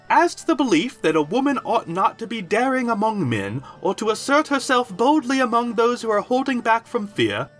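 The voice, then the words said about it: High-pitched voice for female character. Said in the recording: “do a high voice”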